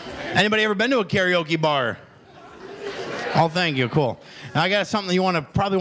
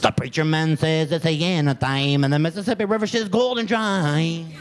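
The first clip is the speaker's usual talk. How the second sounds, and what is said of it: Strong mock Mexican accent, singing. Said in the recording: “he got such a strong Mexican accent”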